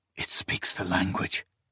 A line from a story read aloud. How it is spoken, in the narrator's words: the man muttered at length